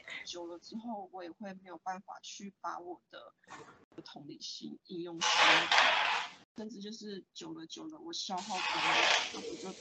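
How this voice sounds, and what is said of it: Very quiet, barely audible voice. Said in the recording (Chinese): “你其实变得很小声哎，我我只听得到 ... 你刚刚讲到同情疲劳之后的声音都听不太到”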